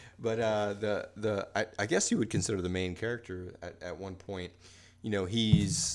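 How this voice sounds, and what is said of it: Usual voice. Nothing is said of it.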